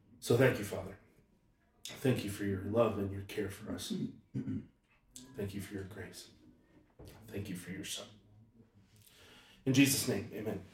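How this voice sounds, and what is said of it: Emotional, choked-up voice. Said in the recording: “getting choked up and I'm getting choked up”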